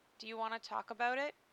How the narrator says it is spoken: she asked softly

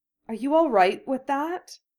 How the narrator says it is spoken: she asked hesitantly

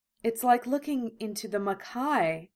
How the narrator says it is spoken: Yukina breathed

